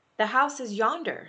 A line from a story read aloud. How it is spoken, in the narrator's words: Scrooge exclaimed